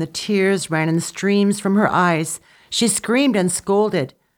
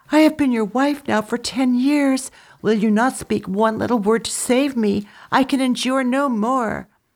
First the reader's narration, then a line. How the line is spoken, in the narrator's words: she pleaded with Dutsi Chun